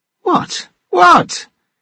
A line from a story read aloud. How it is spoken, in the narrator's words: exclaiming